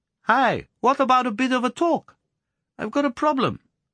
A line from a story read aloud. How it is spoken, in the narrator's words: he piped to John